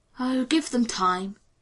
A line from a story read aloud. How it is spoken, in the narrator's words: yawned John Quincy